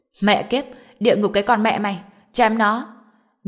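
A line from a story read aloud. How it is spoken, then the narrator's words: Group roaring recklessly. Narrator (Vietnamese): Nhóm người gào lớn, bất chấp tất cả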